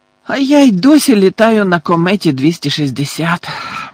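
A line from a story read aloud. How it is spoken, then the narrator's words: Envious groan. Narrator (Ukrainian): заздрісно простогнала Тонкс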